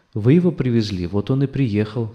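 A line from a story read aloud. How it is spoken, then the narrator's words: Calm answer. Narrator (Russian): спокойно ответила жена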